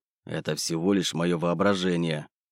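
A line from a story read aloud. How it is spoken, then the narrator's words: Mutter. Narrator (Russian): пробормотал я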